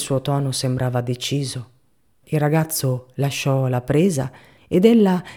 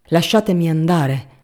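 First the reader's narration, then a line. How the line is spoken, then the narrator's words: Woman shouting. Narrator (Italian): gridò lei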